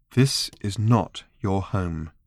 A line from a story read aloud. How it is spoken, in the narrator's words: said Trillian, still keeping her voice calm